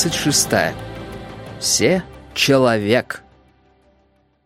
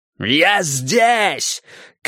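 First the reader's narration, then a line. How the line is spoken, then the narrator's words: Shouted. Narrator (Russian): крикнул МакГилл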